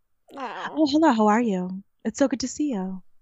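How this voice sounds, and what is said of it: Suddenly much deeper customer-service voice. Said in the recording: “a variation of my sex voice. Like, it all of a sudden gets, like, a lot deeper... customer service voice”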